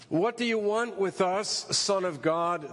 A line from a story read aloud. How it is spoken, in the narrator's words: they shouted